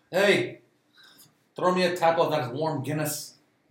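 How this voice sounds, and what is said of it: Put-on Irish accent. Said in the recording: “It's got to get an Irish accent perfectly nailed”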